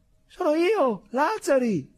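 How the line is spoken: Shout. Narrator (Italian): gridò

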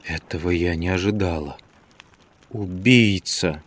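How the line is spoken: Shuddering whisper. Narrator (Russian): содрогнулась и прошептала

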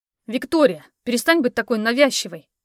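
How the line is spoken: Angry, curt. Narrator (Russian): зло бросил он

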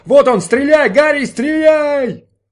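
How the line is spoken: Driver shouting. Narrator (Russian): Шофер кричал

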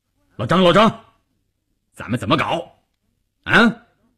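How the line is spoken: Loudly. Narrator (Chinese): 关山林撞进去就大声地说

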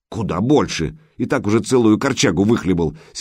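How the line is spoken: Angry. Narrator (Russian): сердито проговорила Крашена

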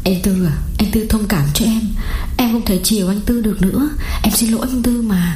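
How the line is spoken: Tearful, on verge of crying. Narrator (Vietnamese): mếu máo bảo

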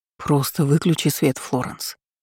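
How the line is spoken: Soft interruption. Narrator (Russian): мягко перебил он

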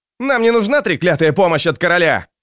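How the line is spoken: Barking snap. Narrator (Russian): рявкнул Лео

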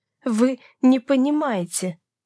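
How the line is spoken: Strained breathless exhale. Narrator (Russian): Через силу едва дыша выдохнула архиепископ

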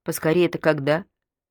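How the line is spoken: Plain. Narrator (Russian): спросила она

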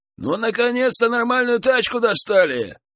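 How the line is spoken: Shouted. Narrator (Russian): выкрикнул кто-то

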